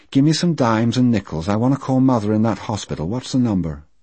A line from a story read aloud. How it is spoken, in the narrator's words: she said in that neutral voice that hurt me so